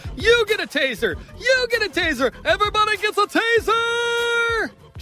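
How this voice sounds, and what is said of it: Oprah Winfrey impression. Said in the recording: “his best Oprah impression”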